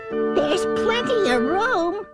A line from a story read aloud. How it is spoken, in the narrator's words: laughed the bug